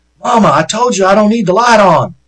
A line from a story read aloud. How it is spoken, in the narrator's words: he began yelling